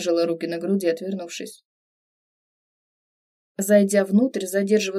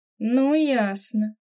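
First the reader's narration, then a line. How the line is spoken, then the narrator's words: Slightly sarcastic drawl. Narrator (Russian): протянула немного язвительно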